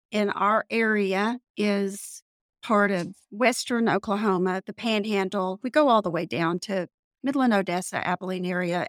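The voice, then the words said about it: Texas panhandle twang. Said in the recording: “my twang probably tells you a little bit that I'm in the panhandle of Texas”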